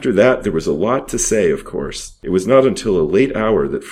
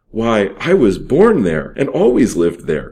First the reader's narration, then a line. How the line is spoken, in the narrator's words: cried Fred